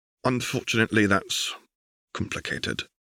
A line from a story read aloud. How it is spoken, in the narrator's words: she said quietly